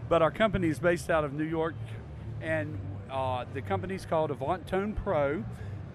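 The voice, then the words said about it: North Carolina accent. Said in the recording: “my accent, I'll tell you I'm from North Carolina”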